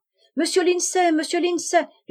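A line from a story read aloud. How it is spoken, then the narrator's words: Calling out. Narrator (French): lui cria sa femme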